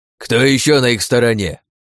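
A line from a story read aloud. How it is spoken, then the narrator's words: Old man barking. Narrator (Russian): рявкнул дед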